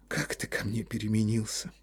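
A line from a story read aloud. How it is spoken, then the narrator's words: Sighing woman. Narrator (Russian): вздохнула Ольга Ивановна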